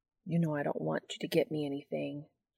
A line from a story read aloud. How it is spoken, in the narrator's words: Sam mumbles